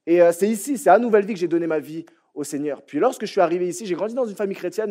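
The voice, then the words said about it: French accent from France. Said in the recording (French): “Comme vous l'entendez à mon accent, moi je viens de la France”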